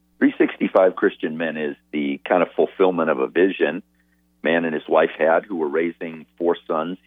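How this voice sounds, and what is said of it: Rich, polished radio-style voice. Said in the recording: “you have a great radio voice.”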